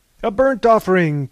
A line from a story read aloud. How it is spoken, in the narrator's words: cried R